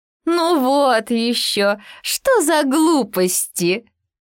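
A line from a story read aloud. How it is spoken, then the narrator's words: Guffawing hare. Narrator (Russian): захохотала зайчиха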